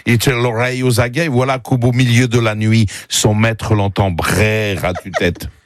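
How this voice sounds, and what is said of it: Heavy foreign accent in French. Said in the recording (French): “ça serait avec un accent, mais il parle très mal le français”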